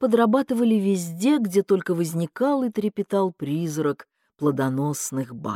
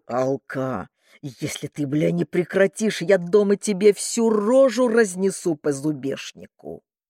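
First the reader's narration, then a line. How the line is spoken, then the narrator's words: Growling threat. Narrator (Russian): Владислав Никитич рычал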